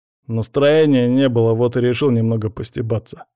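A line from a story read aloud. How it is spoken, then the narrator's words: Amused snort. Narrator (Russian): хмыкнул Павел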